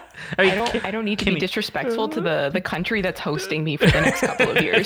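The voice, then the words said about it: American accent. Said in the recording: “I'm sorry I don't have a cooler accent. I'm American.”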